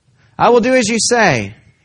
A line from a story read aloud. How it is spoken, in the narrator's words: he said